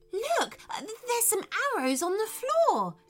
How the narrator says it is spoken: exclaimed Theodore

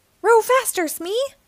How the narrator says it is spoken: yells

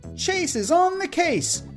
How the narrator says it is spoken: Chase shouted

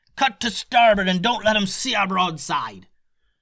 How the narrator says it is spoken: yelled the captain

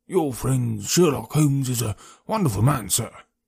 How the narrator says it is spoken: said in a husky and confidential voice

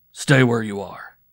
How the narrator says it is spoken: he said roughly

